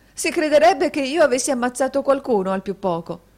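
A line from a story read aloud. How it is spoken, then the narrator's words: Laughing exclamation. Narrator (Italian): esclamò la signorina Price con una risata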